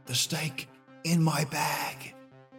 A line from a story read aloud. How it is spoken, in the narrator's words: She whispered